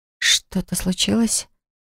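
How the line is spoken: Whisper. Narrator (Russian): прошептал я

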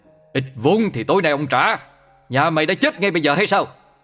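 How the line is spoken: Shouting. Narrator (Vietnamese): Hắn quát lên

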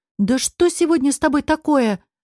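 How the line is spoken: Exclaimed. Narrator (Russian): воскликнула Ева

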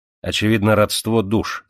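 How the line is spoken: Plain. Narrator (Russian): сказал Мартини

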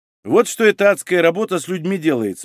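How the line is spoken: Calm. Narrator (Russian): спокойно покачал головой участковый

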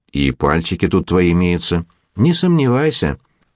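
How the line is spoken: Almost gentle reassurance. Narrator (Russian): заверил Жора едва ли не ласково

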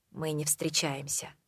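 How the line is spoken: Deep sigh, serious voice. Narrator (Russian): Он глубоко вздохнул и серьезным голосом произнес

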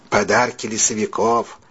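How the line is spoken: Quiet, heartfelt explanation. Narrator (Russian): тихо, но с чувством пояснил сам ММС Мэтью Дэниелу

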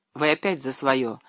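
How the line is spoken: Gentle reproach. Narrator (Russian): мягко упрекнул

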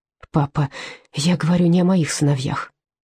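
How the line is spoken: Soft interruption. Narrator (Russian): мягко перебила Фрида

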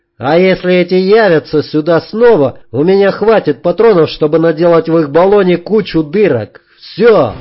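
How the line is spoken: Tense shouting. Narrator (Russian): Я кричал, чтобы не закричать

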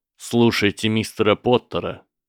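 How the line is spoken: Cold, stern. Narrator (Russian): холодно остановил Квиррелл

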